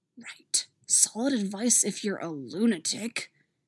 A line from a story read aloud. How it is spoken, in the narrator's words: Stiles hisses